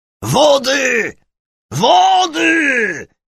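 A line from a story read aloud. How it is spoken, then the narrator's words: Roar. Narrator (Polish): ryknął Hugon Hoffman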